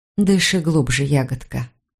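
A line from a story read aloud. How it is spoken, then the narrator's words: Murmur. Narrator (Russian): пробормотала я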